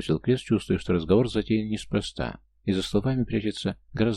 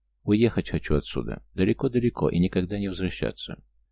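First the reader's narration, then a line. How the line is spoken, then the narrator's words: Quiet, sad. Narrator (Russian): Все так же грустно улыбаясь, она тихо произнесла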